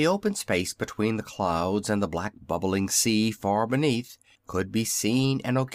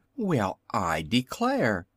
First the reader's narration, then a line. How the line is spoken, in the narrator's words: suddenly exclaimed the little Wizard